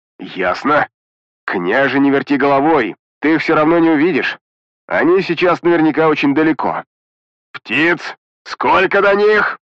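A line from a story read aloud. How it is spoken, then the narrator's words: Barely restrained growl. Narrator (Russian): Едва сдерживая эмоции, прорычал Петрович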